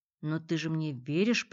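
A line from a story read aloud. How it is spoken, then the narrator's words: Hoarse wheeze. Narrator (Russian): прохрипел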